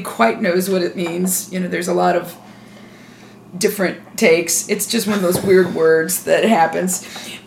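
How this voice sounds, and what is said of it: Sick-sounding voice. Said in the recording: “excuse my voice. I'm a little sick”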